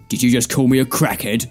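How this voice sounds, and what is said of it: Danny Dyer impression. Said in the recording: “It sounded like Danny Dyer. Yes, you do have to do a Danny Dyer impression.”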